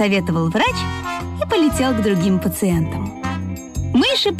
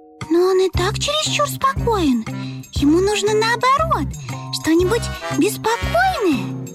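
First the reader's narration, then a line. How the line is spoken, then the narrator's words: Mice squeaking over each other. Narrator (Russian): наперебой запищали мышата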